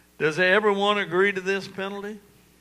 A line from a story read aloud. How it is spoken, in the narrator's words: he asked